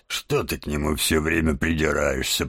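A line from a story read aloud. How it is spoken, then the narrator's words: Grumbling. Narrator (Russian): проворчал мистер Барсук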